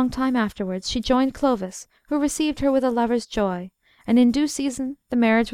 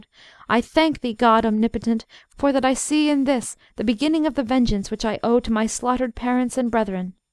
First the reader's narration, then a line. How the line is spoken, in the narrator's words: she cried aloud